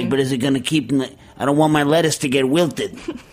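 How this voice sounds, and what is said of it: Imitates another person's voice. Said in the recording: “that's my imitation of her. So you can see that my imitations of people bear no relationship to kind of what's going on.”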